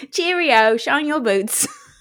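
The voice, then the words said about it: Put-on London English accent. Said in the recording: “I have been to London. Pip, pip. Do the accent.”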